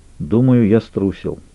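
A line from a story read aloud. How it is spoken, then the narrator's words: Quiet confession. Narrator (Russian): тихо признался Салли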